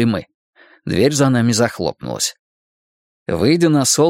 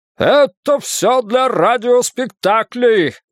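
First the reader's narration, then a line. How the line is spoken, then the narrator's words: Yelling. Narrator (Russian): заорал Мэнни Либер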